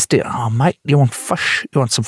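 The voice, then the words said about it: Put-on New Zealand accent. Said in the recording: “I find doing a Kiwi accent really difficult, actually ... it's the same, but not”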